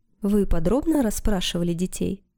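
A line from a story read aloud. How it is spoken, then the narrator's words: Plain. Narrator (Russian): Пародин ответил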